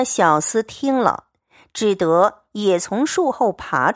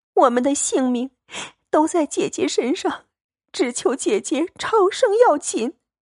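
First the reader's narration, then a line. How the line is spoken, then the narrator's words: Tearful pleading. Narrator (Chinese): 思琪拉住苦求，哭道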